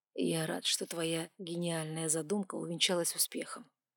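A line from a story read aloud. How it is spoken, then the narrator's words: Even-voiced reply. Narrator (Russian): ровным голосом ответил король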